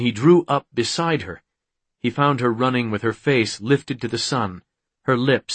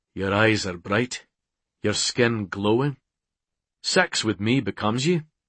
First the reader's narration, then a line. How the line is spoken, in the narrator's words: In a casual tone, he observed